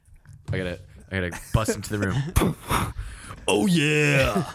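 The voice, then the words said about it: Kool-Aid Man impression. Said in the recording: “Our best Kool-Aid man impression? ... Do your impression.”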